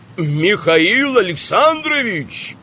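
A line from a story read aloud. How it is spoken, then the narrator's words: Shouting after someone. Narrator (Russian): крикнул он вдогонку Мирцеву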